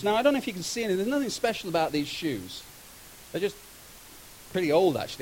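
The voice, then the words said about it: British accent. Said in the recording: “she heard my accent ... I'm from Britain”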